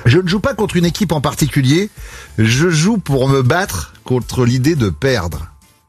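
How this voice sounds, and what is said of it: Impression of Eric Cantona. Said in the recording (French): “Cantona ?... C'est Canto... Bon imitateur.”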